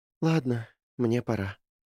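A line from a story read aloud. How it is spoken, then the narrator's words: Sighing. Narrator (Russian): вздохнула она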